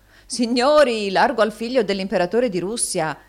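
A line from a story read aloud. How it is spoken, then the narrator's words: Shouted. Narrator (Italian): gridò un altro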